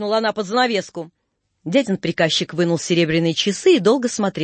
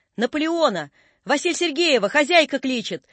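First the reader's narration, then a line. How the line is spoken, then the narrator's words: Muffled yell through wall. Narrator (Russian): заорал кто-то за стеною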